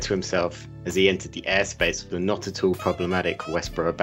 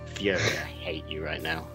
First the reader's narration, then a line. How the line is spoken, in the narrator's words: muttered Tony